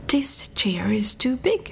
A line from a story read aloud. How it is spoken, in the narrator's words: she exclaimed